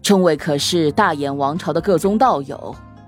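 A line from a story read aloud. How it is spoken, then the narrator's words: Plain. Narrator (Chinese): 李善和刘毅两位长老抱拳道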